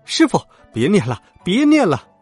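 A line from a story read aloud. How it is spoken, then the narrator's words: Two voices crying out in pain. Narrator (Chinese): 二人一起叫苦说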